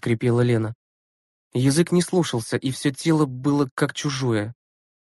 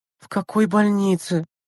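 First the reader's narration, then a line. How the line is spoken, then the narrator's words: Moan, in pain. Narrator (Russian): простонала Лена, пытаясь пошевелиться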